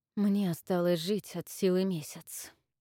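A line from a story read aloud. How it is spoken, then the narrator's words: Quiet. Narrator (Russian): тихо вымолвил Авис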